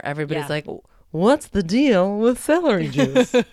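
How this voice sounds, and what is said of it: Imitates another person's voice. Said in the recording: “my Seinfeld impersonation ... It's so good. So good.”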